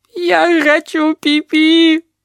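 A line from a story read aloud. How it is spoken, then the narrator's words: Sobbing elephant. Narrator (Russian): прорыдал слон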